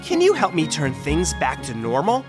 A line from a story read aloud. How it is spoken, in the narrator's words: Wendy asked